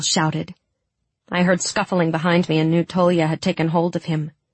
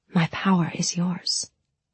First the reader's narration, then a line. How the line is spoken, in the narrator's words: I whispered